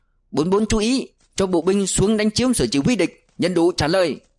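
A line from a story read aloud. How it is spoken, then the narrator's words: Booming commander's voice. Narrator (Vietnamese): tiếng của đại đội trưởng lại oang oang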